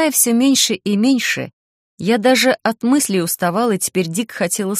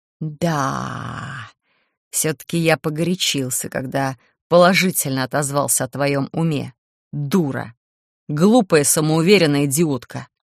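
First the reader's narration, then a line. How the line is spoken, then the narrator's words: Angry hiss. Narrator (Russian): Демон сорвался на злобное шипение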